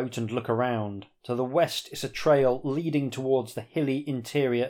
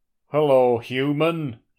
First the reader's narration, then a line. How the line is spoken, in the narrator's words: he booms